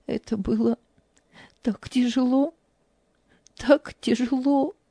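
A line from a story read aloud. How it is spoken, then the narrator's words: Tearful. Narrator (Russian): сквозь слезы произнесла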